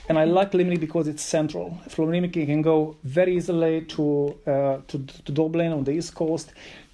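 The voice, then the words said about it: Non-local accent. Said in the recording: “I'm not from Limerick, as probably you can guess by my accent”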